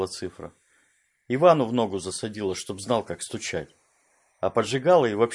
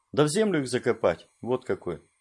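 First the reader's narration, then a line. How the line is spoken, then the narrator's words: Calm. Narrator (Russian): спокойно сказал Седой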